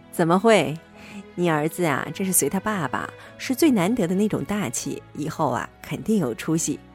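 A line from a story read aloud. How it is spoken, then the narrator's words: Chuckling. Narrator (Chinese): 我呵呵笑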